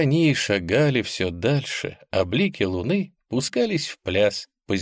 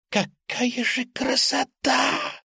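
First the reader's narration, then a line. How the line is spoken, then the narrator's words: Whispering bat. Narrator (Russian): шепотом произнесла летучая мышь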